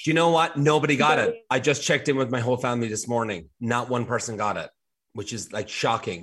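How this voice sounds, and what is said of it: Irish accent. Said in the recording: “your Irish accent is back after your wee break at home”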